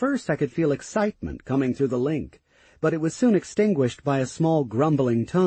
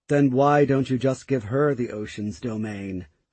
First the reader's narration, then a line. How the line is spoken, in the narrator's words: A somewhat frustrated tone responded to me